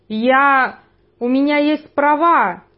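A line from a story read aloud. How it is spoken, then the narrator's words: Sudden shout. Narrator (Russian): внезапно выкрикнул человек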